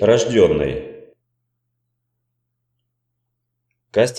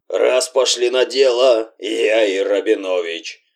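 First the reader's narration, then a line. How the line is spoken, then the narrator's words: Strained hoarse voice. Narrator (Russian): Надрывно хрипел знаменитый голос Жоры Жиганчика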